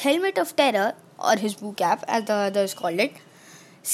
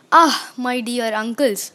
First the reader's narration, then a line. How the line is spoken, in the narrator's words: Zeus chuckled